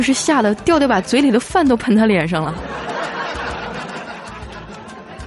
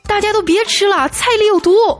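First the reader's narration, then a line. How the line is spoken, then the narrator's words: Excited shouting. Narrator (Chinese): 小黑激动的大喊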